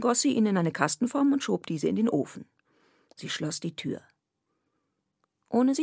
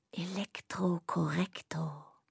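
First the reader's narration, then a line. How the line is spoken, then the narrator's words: Whisper. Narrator (German): Polly … flüsterte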